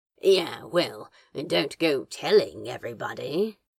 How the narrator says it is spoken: Crowley grumbled, blushing deeper

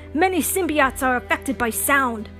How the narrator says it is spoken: Reed shouted

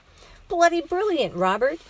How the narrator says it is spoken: Frank shouted

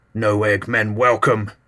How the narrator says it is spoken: growled

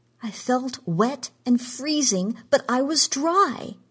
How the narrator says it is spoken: cried

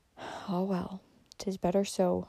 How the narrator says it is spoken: murmured the old lady

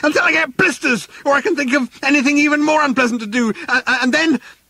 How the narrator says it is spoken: yelled Arthur, still running

